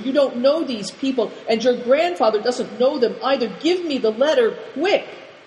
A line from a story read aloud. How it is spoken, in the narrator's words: cried Good Fortune